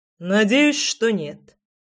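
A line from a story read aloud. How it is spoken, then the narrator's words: Deep bass voice. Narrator (Russian): пробасил Фрол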